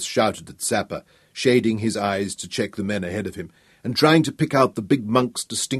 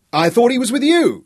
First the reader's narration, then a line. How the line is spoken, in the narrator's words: Sapper shouted back